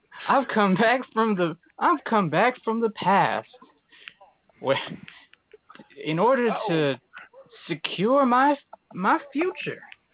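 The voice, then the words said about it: Twangy Western-style put-on accent. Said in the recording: “twangy voice, Western style accent”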